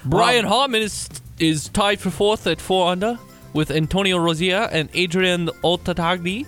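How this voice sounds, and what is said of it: Put-on British accent drifting Jamaican. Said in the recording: “you have to say the leaderboard in a British accent ... that's getting to Jamaican ... You shifted from a, a British accent to a Jamaican accent all in one.”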